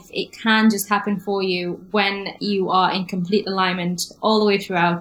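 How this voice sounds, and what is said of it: Slight English accent. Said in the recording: “there's a hint of an English accent there”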